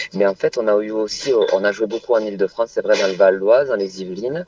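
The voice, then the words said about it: Slight southwestern French accent. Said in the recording (French): “vous entendez, j'ai un léger accent, hein, j'ai grandi dans le sud-ouest”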